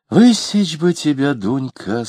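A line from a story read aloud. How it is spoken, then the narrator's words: Sighing. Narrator (Russian): сказала Алина, вздохнув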